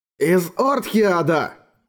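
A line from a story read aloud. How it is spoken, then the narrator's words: Exclaimed. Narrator (Russian): воскликнул Орик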